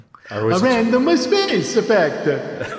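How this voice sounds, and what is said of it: Poor put-on Italian accent. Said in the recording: “You can do a better Italian accent, can't you? ... why am I butchering an Italian accent?”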